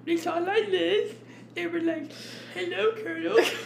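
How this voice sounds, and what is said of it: Silly put-on dumb voice. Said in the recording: “little dumb voice”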